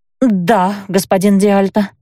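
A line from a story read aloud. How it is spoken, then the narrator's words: Forced out. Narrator (Russian): выдавила я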